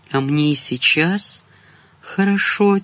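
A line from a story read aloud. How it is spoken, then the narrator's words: Quiet. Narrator (Russian): тихо проговорила она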